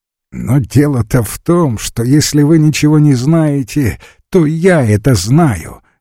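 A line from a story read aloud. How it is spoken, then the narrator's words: Laughing while speaking. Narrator (Russian): говорил, смеясь, Весленев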